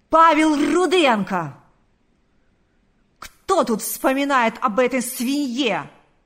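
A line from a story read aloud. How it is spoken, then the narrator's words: Yelling. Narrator (Russian): заорал он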